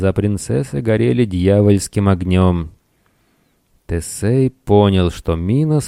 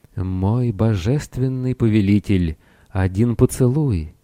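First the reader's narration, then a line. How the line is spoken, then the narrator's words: Honeyed whisper. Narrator (Russian): медовый голос прошептал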